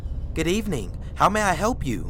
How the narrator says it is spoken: cheerfully said

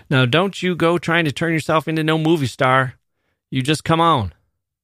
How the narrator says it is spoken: His father yelled behind her

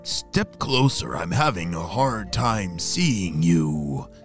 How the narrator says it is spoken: croaked the bullfrog

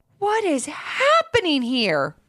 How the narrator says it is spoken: He exclaimed

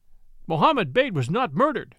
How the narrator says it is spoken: they cried

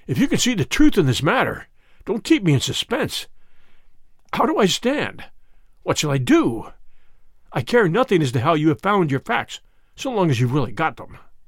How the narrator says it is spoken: he said hoarsely

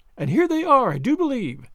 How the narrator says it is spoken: said Sally, excitedly, as a distant clatter of horses and wheels could now be distinctly heard, drawing rapidly nearer

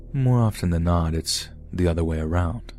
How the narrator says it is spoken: in a deadpan voice, he said

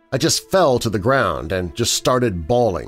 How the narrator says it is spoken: said

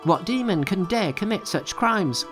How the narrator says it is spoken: cried Monkey

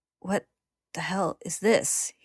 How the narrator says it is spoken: He says shakily

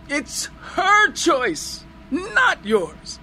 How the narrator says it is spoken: I screamed into his ear

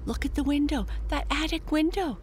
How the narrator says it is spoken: Jesse exclaimed

